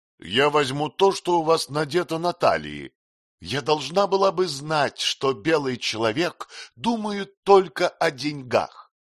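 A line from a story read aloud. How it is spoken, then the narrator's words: Contemptuous shout. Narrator (Russian): презрительно крикнула она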